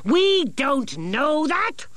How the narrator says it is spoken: shouted Nicodemus

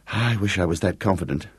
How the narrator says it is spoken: muttered Gareth

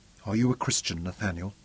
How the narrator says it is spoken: Robin asked softly

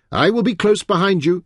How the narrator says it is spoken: he shouted over his shoulder

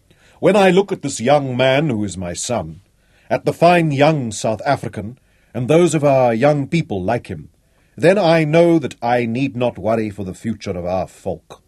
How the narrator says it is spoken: Manfred proclaimed in the sonorous tones to which his listeners responded instinctively

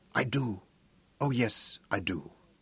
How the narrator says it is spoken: she whispered huskily

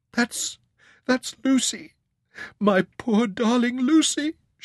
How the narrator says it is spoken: she sobbed

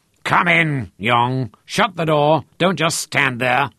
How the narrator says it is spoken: roared

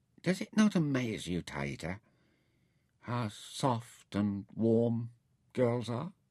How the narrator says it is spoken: he remarked, dreamily

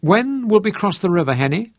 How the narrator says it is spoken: Manfred asked

